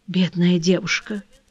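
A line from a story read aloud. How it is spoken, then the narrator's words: Whispered. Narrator (Russian): прошептал Арман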